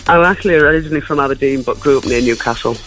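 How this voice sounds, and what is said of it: Geordie accent. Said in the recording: “Oh, now I love your accent. ... I could hear the Geordie there.”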